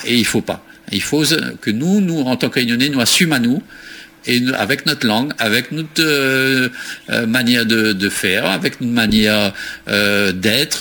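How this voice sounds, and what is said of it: Réunion French accent. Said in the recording (French): “nous avons l'accent qu'on nous cause français, il est normal, hein, nous sommes de la Réunion, il est normal, nous avons l'accent.”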